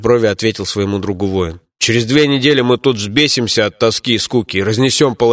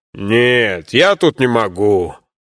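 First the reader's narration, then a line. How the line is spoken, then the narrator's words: Deep booming bass. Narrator (Russian): прогудел своим утробным басом Бабакан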